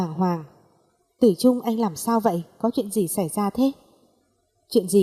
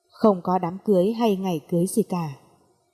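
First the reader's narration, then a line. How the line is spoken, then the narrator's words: Cold flat voice. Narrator (Vietnamese): Tử Trung lạnh lùng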